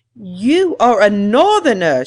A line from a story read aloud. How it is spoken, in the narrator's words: she exclaimed